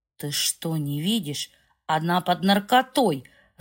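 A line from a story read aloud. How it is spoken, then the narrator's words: Husband cursing angrily. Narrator (Russian): зло выругался муж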